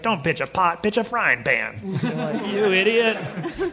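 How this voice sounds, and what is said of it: Imitates another person's voice. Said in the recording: “is that your Thurup impersonation?”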